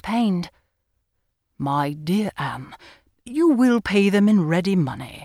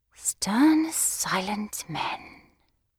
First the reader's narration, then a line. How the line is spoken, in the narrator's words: I murmured to myself in an ecstasy